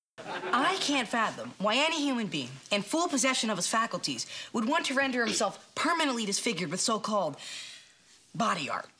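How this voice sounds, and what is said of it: Good Minkus impersonation. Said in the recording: “specifically does a very good, like, Minkus impersonation.”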